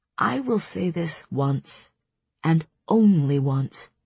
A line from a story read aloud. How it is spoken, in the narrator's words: Rhysand purred